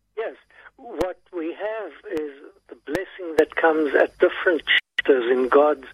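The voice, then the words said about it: South African British accent. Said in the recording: “a wonderful South African British accent”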